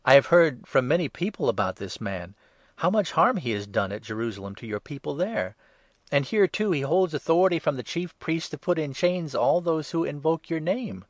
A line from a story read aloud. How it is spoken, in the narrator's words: exclaimed Ananias